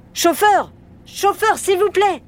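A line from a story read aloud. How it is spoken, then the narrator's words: Shouting. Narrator (French): criait-il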